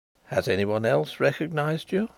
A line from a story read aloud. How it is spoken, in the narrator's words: asked Carrados quietly